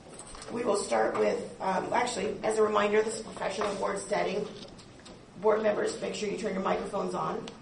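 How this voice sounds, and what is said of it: Hoarse voice. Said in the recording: “Forgive my hoarse voice, that's what you're going to hear a little bit today.”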